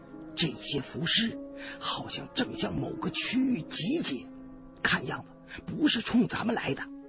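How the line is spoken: Low voice. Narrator (Chinese): 山瑞阳低声对我胖子说

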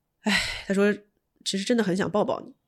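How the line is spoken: Sighing. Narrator (Chinese): 他叹了一口气，他跟我说

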